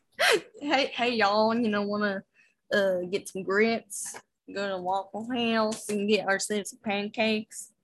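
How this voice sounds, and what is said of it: Put-on redneck American accent. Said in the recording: “an American accent ... redneck one”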